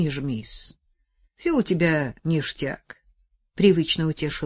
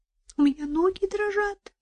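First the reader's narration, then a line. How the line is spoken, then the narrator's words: Squeak. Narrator (Russian): пискнула Настя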